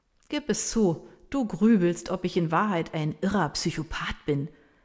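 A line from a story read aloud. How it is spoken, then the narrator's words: Laughing. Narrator (German): sagt er lachend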